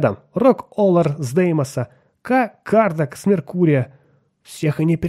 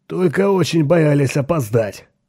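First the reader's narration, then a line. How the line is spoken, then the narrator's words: Joyful booming voice. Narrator (Russian): прогудел Эзра Гурни, расплываясь в радостной улыбке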